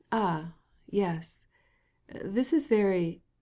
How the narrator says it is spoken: murmured Stepan Arkadyevitch, glad to be able to keep silent during this reading and to think over his affairs a little

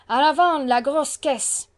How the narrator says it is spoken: A stentorian voice shouted out in resonant accents

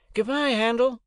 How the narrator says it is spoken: Herbert called out as we started

